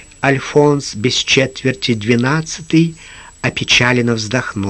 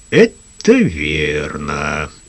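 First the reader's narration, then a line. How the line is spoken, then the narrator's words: Thoughtful. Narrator (Russian): задумчиво проговорил Лукас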